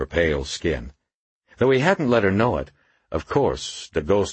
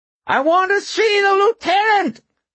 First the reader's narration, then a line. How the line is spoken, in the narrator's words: the homeless man screeched in a thin, reedy voice